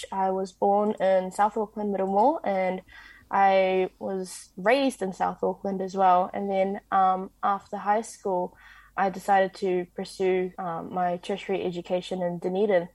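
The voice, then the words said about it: Strong New Zealand accent. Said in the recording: “the very Kiwi accent”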